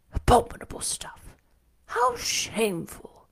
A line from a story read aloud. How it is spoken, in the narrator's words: one of them, the stout one, whispered